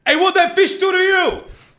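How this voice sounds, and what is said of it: Impression of a New Yorker. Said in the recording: “I'm going to do an impression... this is a vegan New Yorker walking down the street”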